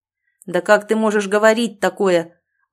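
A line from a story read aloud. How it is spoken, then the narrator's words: Angry bark. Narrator (Russian): Он злобно гаркнул на меня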